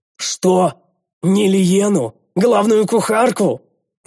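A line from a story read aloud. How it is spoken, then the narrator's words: Very loud yell, echoing. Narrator (Russian): Завопил я так громко, что эхо от моего крика гулко заметалось по пещере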